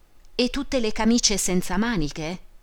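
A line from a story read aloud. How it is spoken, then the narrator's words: Exclaiming. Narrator (Italian): esclamò Teresina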